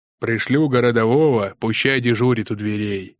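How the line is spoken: Friendly bass turning stern. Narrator (Russian): басил тот вполне дружелюбно, но спохватывался и раскатывал по залу с прежней строгостью

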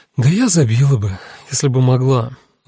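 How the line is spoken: Sighing. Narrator (Russian): вздохнула Люся

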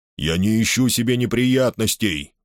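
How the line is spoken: Sullen grumble. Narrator (Russian): угрюмо проворчал Ион Оллен

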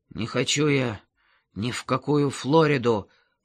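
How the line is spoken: Grumbling mutter. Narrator (Russian): пробурчал Гердер

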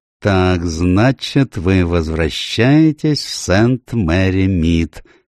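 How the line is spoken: Slow question. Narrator (Russian): медленно спросил он

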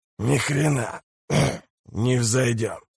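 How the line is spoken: Hoarse rasp. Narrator (Russian): прохрипел он

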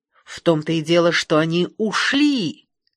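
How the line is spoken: Angry hiss. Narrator (Russian): Голос Нисодемуса перешел в злобное шипение

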